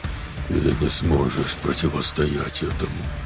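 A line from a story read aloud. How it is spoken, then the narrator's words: Hoarse man. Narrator (Russian): прохрипел мужчина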